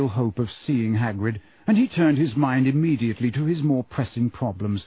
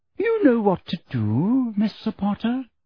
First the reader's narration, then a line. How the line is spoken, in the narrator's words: said Umbridge, smiling sweetly